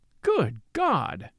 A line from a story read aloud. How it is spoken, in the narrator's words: exclaimed Marchmont